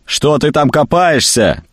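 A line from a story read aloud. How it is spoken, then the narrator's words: Shouting upward. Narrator (Russian): крикнул вверх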